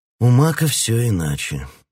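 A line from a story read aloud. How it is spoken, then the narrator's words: Sad. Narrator (Russian): грустно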